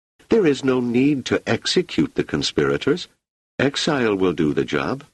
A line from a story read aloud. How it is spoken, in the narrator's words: she exclaimed